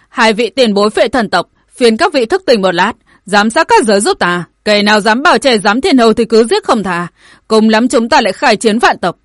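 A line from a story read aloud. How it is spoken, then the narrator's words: Yelling. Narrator (Vietnamese): Tổ Vũ lại gào lên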